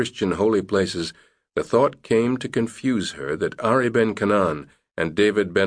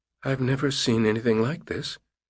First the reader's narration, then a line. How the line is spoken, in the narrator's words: she whispered in a shaky voice